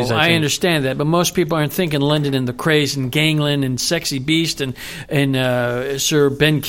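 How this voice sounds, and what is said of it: Usual voice. Nothing is said of it.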